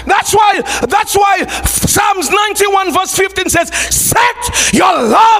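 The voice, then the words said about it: Shouting preacher voice. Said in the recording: “Why am I shouting?”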